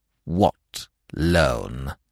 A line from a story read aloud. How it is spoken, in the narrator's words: inquired icily